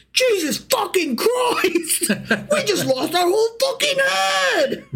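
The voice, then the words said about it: Put-on British accent. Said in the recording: “I don't know why I gave them British accents”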